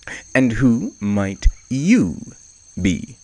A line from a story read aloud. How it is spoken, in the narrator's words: Zebra asked